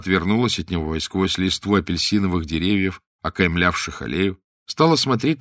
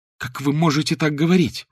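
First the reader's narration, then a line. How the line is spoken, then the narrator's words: Female exclamation. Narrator (Russian): воскликнула она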